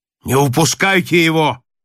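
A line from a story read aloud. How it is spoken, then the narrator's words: Burly sailor shouting. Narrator (Russian): крикнул рослый матрос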